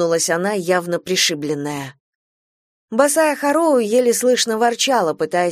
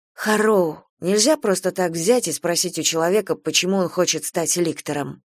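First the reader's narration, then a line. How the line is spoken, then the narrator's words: Barely audible mutter. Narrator (Russian): пробормотала Гидеон, но ее никто не услышал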